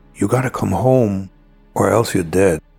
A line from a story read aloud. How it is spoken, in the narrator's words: a man who slowly comes up to me and whispers in my ears